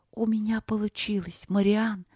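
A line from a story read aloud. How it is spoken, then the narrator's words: Soft, careful whisper. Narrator (Russian): прошептала она тихо, чтобы не спугнуть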